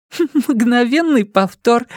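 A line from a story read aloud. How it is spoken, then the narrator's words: Forced out through laughter. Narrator (Russian): сквозь смех выдавил из себя Джейк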